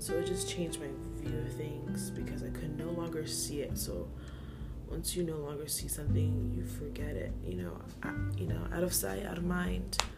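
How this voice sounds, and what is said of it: Voice fading, going hoarse. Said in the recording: “I don't know why my voice is going out. I drink a lot of water today.”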